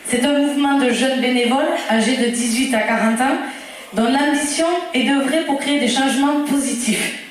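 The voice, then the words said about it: Strong, sharp regional French accent. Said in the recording (French): “j'ai reconnu mon accent du Lévezou, là. Bien péchu, bien pointu.”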